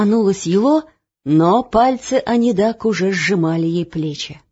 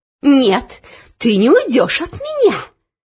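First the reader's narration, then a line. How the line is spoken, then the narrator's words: Hissing. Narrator (Russian): прошипела Анидак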